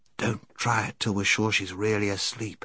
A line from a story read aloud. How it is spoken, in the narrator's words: whispered Scrub